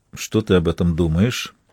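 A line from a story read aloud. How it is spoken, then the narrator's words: Quiet question. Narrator (Russian): тихо спросил Дронгу у Вейдеманиса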